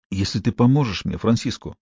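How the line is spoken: Mumbled hesitantly. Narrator (Russian): промямлил он наконец

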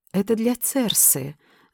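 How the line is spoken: Annoyed whisper. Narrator (Russian): с досадой прошептала

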